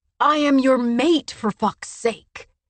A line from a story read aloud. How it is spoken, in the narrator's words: Cassian shouted, loud enough for people across the river to hear